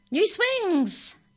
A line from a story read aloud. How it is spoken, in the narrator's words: shouted Grandpa